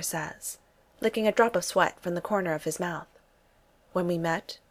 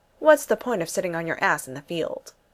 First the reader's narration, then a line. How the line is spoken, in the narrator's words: Thor laughs